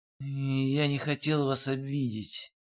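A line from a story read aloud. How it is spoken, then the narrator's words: Muttering. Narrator (Russian): пробормотал Олег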